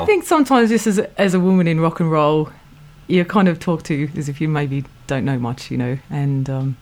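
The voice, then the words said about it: Australian accent. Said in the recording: “an Antipodean flavour in your accent ... your vowels and tones”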